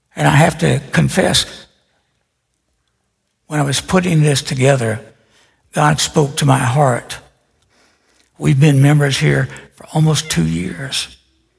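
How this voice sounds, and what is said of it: Hoarse, dry voice. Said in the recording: “a flap of skin on my right vocal cord. That's why I'm so hoarse. And then I get dry mouth too.”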